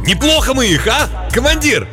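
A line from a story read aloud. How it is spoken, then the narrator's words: Excited, nearly shouting. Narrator (Russian): Возбуждение от неслыханной удачи заставило его едва ли не прокричать эти слова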